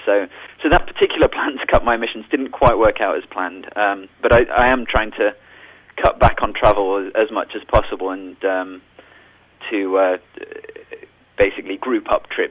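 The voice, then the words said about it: Non-North Carolina, foreign accent. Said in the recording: “as you can tell from my accent, I'm not from North Carolina”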